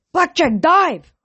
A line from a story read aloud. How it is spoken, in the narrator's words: yelled